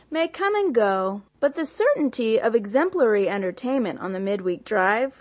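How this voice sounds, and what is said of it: Affected put-on accent. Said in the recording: “affecting an accent”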